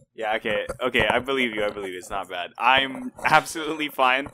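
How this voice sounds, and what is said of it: Tired-sounding voice. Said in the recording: “In case any of you didn't notice from my voice, I am quite tired today”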